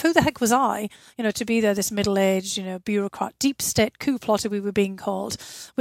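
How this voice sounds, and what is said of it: British accent. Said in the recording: “this you know British accent that they couldn't discern”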